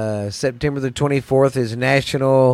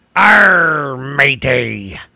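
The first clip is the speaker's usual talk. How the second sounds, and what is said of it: Pirate voice. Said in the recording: “Talk Like a Pirate”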